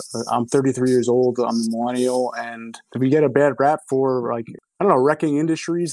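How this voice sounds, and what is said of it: New Jersey accent. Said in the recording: “you have not lost the accent ... the neighborly accent of New Jersey”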